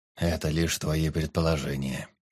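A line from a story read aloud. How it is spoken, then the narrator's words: Calm royal retort. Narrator (Russian): спокойно парировал король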